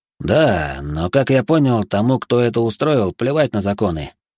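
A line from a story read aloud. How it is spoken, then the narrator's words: Wry snort. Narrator (Russian): хмыкнул Ибрагим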